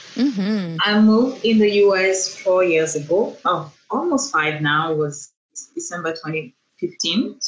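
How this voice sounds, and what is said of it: Cameroonian accent. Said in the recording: “I'm originally from Cameroon. That's why you can hear this beautiful accent.”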